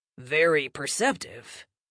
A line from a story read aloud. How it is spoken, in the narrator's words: Stonequest all but purred again